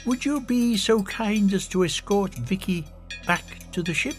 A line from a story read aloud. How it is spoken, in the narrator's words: he said quietly